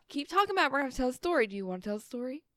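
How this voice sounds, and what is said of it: Parental mom voice. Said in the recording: “I'm giving you my mom voice here.”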